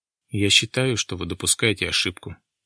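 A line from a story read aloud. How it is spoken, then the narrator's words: Gloomy repetition. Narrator (Russian): мрачно повторил Дронго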